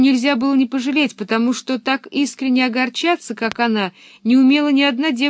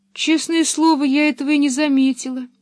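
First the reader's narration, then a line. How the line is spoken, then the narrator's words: Sad. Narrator (Russian): печально добавила она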